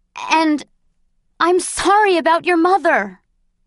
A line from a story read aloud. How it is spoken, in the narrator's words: I blurted